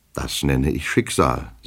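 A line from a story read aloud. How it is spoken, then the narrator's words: Plain. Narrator (German): sagte unser Held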